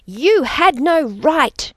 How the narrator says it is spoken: shrieked up at his back

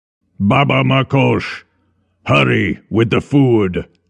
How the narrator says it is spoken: Veles barked

